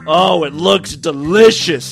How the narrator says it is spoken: he groaned

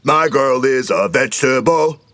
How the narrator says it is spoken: he shouted at them

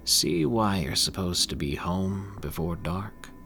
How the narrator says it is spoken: said calmly

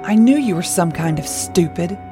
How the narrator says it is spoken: he growled

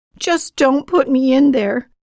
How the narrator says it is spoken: begged

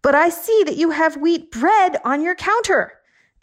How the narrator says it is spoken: I yelled

